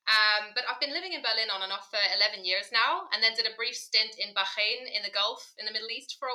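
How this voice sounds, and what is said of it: British accent. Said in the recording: “you can probably hear from my accent, I'm from the UK originally”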